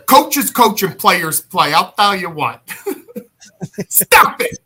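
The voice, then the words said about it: Mike Ditka impression. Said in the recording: “Mike Ditka here.”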